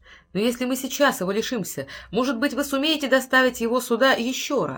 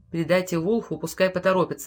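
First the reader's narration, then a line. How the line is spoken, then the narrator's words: Soft, gentle. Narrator (Russian): мягко сказал Болтон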